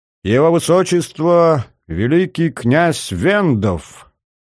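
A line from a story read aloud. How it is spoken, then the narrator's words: Loud, solemn announcement. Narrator (Russian): кто-то громко, удивительно торжественным голосом произнес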